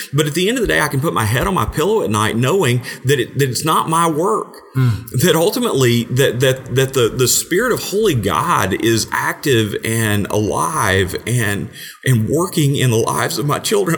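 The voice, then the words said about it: Emotional, choked-up speech. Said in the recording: “I'm sorry, I get emotional.”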